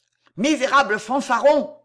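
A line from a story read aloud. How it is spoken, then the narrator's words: Yelled. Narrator (French): hurla Leclerc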